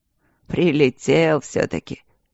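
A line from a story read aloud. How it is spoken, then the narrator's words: Grumbling. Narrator (Russian): проворчал он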